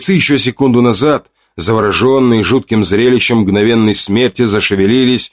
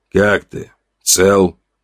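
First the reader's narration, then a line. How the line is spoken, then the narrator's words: Quiet question. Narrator (Russian): спросил он тихо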